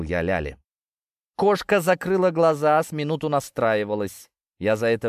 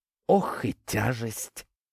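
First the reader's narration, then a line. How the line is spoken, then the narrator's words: Exhaling, panting heavily. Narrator (Russian): Кошка выдохнула и задышала, как штангист после упражнения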